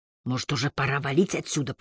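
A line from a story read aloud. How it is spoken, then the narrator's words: Whispered. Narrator (Russian): прошептал я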